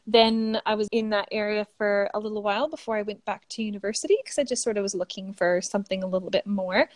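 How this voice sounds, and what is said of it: Canadian English accent. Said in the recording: “as you can probably hear from the accent, I am Canadian”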